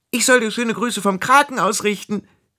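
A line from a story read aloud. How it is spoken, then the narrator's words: Calling out. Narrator (German): rief sie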